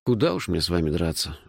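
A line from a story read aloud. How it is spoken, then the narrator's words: Sighing. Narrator (Russian): вздохнул я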